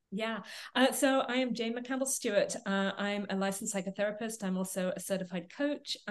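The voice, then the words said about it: English accent. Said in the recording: “You can probably tell from my accent, I was born and raised in England.”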